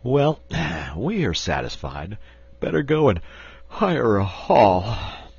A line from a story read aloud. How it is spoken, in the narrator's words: remarked the sporting editor with a yawn